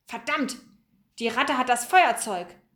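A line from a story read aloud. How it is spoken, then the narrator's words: Called out. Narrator (German): rief er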